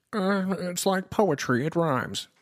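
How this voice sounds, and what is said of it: Imitates another person's voice. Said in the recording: “that's my best George Lucas impersonation.”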